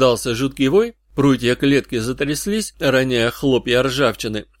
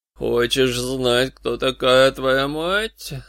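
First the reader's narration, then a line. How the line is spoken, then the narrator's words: Sepulchral-voiced question. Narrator (Russian): спросил загробным голосом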